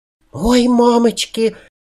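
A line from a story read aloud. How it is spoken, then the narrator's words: Muffled frightened squeak. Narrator (Russian): пискнула глухо Аннабель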